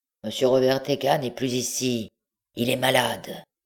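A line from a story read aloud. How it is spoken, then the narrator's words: Grumbled, muffled reply. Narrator (French): La voix grogna et répondit sourdement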